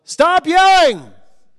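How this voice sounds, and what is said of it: Yelling. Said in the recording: “You yell”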